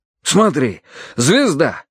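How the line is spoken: Exclaimed. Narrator (Russian): воскликнул Карадерс

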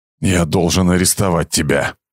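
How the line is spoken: Growl. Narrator (Russian): прорычал Кейн

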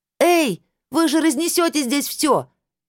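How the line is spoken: Shout. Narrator (Russian): крикнула я

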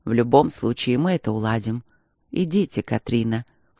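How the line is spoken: Gentle, smiling. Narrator (Russian): мягко улыбнулся он

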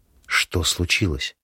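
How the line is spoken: Barely audible strained question. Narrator (Russian): едва слышно выжимаю из себя вопрос

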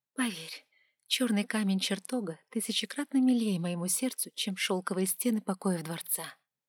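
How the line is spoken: Quiet, avoiding guards' notice. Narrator (Russian): тихо ответила я, чтобы не привлекать внимания стражи

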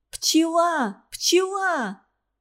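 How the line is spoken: Ringing shout. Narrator (Russian): Звонко закричала она

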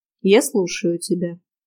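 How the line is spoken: Even voice. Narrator (Russian): ровным голосом уведомила

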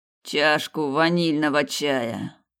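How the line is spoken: Groaned. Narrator (Russian): простонал Снейдер

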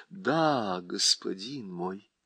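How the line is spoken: Sad reply. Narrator (Russian): печально отвечала Уинни

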